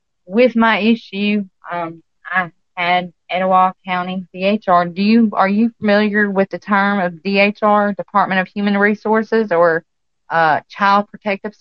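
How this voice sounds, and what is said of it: Southern country Alabama accent. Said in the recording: “I am actually from Alabama, if you can't tell from my country accent.”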